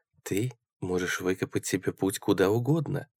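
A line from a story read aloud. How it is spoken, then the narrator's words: Soft. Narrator (Russian): мягко сказала она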